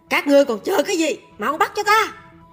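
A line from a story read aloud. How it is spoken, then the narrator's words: Shouted command. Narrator (Vietnamese): quát chúng quan sai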